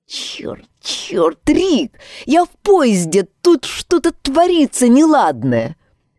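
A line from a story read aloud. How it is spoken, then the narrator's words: Hissing. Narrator (Russian): Шипение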